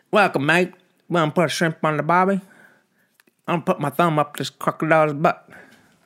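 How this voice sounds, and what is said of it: Bad put-on Australian accent. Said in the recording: “What the fuck am I doing with my fucking accents? ... What the fucking shitty accent is that?”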